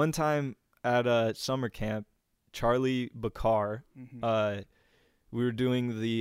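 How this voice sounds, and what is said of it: Usual voice. Nothing is said of it.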